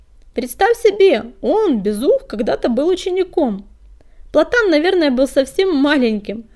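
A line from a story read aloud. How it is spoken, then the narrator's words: Laughing. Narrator (Russian): рассмеялся Огнегриф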